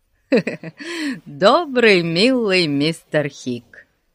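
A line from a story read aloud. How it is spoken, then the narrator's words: Giggling. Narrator (Russian): хихикнул Ларри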